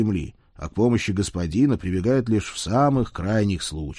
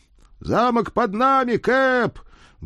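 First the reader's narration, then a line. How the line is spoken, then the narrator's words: Loud distant yell. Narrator (Russian): громко проорал кто-то с верхушки мачты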